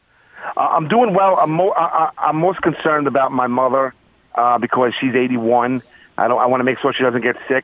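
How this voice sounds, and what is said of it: Queens New York accent. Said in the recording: “I love the Queens accent.”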